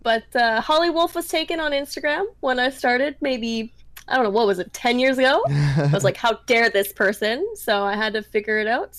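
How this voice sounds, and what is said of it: Canadian accent, different O sound. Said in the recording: “a little accent too? ... I'm from Canada, yes. I'm from the north. And I most likely said something with a different O sound to it.”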